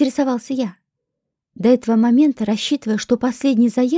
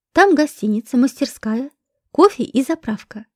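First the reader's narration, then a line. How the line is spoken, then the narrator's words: Plain. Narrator (Russian): ответил маршал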